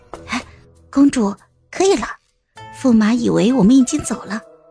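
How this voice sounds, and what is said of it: Quiet whispered speech. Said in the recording (Chinese): “小声的说”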